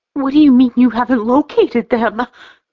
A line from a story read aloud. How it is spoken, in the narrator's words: Lindsay wails